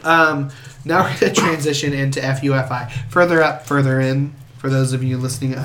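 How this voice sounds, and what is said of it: Weird, sick-sounding voice. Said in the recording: “I'm dying. I my voice sounds weird. It's because I've got bronchitis.”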